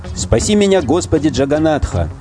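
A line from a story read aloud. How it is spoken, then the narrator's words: Shouting. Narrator (Russian): закричал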